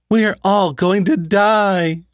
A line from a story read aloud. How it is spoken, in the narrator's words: She sat on my bed as she cried